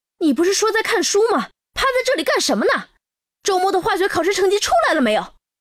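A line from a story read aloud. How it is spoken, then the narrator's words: Angry roar. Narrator (Chinese): 妈妈瞬间像变了一个人似的，脸色阴沉着，冲图南吼道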